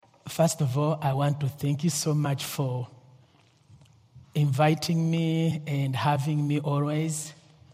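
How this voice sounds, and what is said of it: Strong non-native accent in English. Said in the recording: “my accent is not really so good ... Some of the words can be pronounced differently.”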